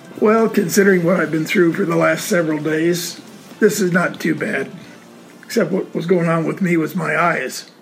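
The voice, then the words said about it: Slightly gravelly, rough voice. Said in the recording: “A little gravelly.”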